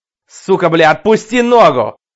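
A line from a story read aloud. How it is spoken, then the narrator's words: Terrible roar. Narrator (Russian): Страшно взревел он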